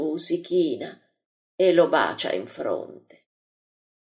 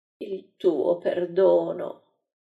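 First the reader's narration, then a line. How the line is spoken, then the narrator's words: Man groaning, distraught. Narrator (Italian): L'uomo, col volto mutato, geme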